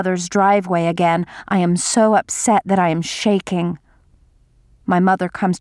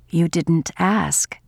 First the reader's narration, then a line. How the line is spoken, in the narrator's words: my mother says quietly